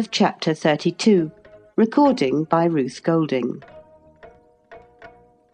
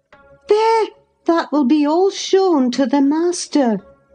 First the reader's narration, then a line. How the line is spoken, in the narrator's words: I exclaimed